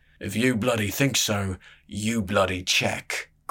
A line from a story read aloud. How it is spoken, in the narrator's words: grunted the first cloak